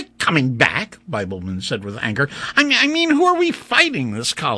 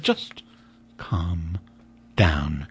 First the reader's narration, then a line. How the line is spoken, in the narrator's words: Major Casals said quietly